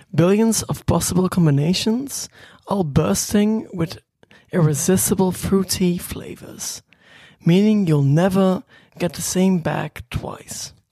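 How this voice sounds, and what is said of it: Attempted British English accent. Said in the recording (Dutch): “ik kan enkel een Brits accent doen ... ik weet niet of dat Brits accent erin was”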